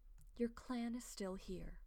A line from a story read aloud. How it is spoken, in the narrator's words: she murmurs